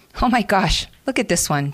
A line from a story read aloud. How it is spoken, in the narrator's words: Shauna quickly intervened with a giggle